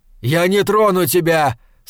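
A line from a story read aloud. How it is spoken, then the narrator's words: Shout. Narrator (Russian): снова крикнул он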